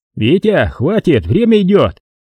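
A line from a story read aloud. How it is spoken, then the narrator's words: Impatient shout. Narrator (Russian): не выдержал и крикнул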